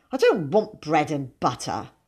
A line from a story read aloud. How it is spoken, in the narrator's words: he said scornfully